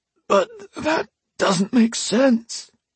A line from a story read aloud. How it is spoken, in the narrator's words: Alesh wheezed